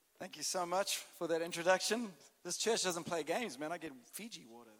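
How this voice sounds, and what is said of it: South African accent. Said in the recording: “I've got a bit of a different accent. I'm South African”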